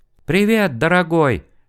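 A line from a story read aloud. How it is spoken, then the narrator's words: Joyful yell. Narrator (Russian): радостно завопил компьютер голосом Юльки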